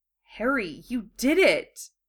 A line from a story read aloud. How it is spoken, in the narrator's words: he exclaimed softly